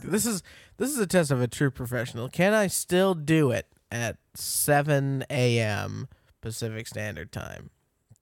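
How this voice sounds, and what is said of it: Crackly just-woke-up voice. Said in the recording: “Your voice is fresh out uh, of the bed. ... It's all crackly.”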